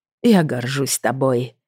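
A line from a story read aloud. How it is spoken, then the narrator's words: Mutter. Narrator (Russian): пробормотал Грей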